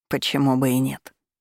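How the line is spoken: Calm. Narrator (Russian): спокойно пожал плечами Дайрус

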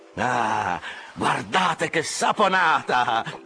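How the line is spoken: Shouting while jumping. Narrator (Italian): gridava Flesk saltando su e giù

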